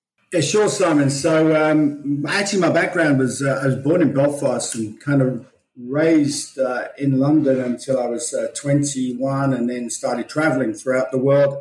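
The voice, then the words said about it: Australian-sounding English accent. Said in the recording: “that doesn't sound like an English accent to me. It sounds Australian.”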